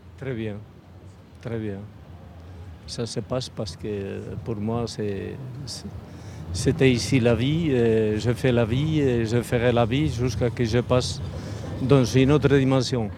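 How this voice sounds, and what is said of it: Slight foreign accent. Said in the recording (French): “Vous avez un petit accent”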